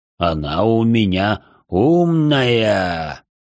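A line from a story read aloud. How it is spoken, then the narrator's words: Pleased drawl. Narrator (Russian): довольно протянул Пламень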